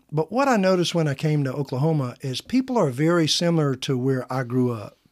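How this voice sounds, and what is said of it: Slight Southern twang. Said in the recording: “a little twang in my accent, so I'm told... you must be from a Southern state”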